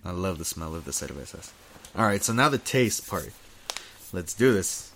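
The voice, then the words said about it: Congested, stuffy nasal voice. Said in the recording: “I'm congested as fuck right now. ... I gotta breathe after every smell.”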